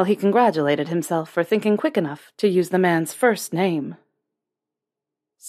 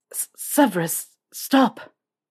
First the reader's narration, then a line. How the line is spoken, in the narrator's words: He'd also not admit how much he stuttered through